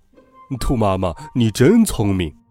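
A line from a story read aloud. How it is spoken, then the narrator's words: Happy laugh. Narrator (Chinese): 熊法官开心的笑了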